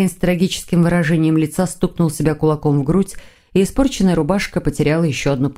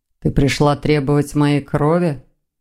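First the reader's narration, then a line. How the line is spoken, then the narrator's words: Gloomy question. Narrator (Russian): мрачно осведомился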